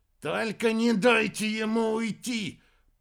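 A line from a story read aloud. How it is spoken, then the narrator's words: Growled. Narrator (Russian): прорычал Аэрба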